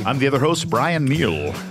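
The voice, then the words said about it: Radio DJ voice. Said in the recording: “It's my DJ voice. ... That's very good. Very good.”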